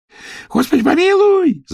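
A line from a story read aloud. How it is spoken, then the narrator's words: Wailed, wide-eyed. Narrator (Russian): завопила Дуняша, тараща глаза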